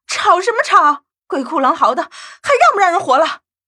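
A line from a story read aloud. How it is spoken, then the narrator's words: Irritated, loud yelling. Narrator (Chinese): 小鱼更是心烦，大声吼着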